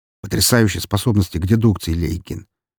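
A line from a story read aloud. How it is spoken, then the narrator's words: Angry, irritated snapping. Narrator (Russian): зло огрызнулся Сергей, совсем не желая сейчас выслушивать тупые шутки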